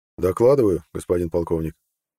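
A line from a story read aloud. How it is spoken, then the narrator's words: Calm. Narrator (Russian): спокойно начал Нед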